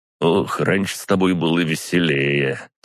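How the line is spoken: Quick grumble. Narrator (Russian): тут же проворчал Гриша

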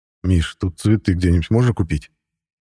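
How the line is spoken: Wistful sigh. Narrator (Russian): Тоскливо вздохнул я

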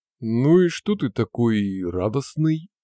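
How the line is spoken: Booming drone. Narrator (Russian): прогудел Генри

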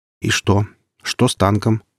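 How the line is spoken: Plain. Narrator (Russian): спросил Гриф

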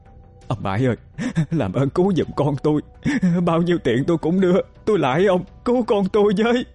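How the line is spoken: Trembling pleading. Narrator (Vietnamese): Bà Ba hai tay run rẩy, năn nỉ ông Bãi

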